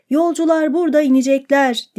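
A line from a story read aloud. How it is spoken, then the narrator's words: Shouting. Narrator (Turkish): diye bağırdı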